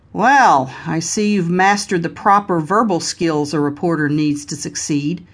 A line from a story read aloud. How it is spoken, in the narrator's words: Ronnie remarked with a grunt